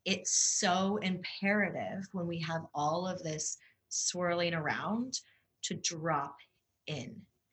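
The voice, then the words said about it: Slower pace, lower voice. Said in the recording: “I can even tell my pace has slowed, my voice has dropped.”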